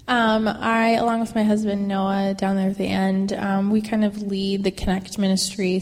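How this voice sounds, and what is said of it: Stuffy, congested voice. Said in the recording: “I have a cold.”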